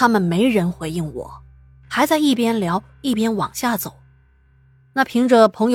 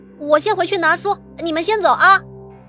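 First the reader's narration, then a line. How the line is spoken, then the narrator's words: Call out. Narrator (Chinese): 我就喊了一声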